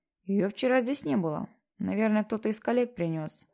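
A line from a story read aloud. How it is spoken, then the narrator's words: Muttering under breath. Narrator (Russian): пробурчал он себе под нос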